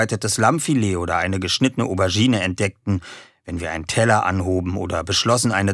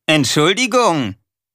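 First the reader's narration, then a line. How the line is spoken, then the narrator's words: Loud. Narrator (German): sagte laut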